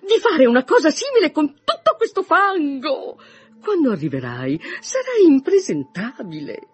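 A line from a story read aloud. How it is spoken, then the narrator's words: Mother's exclamation. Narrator (Italian): esclamò sua madre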